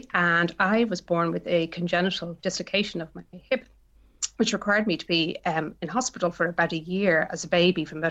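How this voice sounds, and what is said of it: Irish Dublin accent. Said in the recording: “my accent tells you there, I'm from Dublin, Ireland originally”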